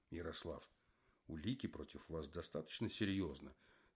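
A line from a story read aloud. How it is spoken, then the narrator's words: Soft. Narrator (Russian): сказал Зиганшин мягко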